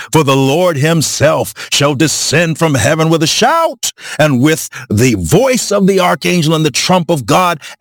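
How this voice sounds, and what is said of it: Preacher-style declaiming voice. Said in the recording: “put on my preaching voice”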